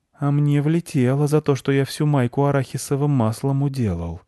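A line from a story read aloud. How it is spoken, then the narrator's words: Gloomy whisper. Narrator (Russian): мрачно прошептал Марк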